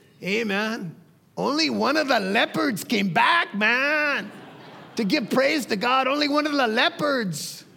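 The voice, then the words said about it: Imitates another person's voice. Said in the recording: “my Raul Ruiz impression... that's probably a poor Raul Ruiz”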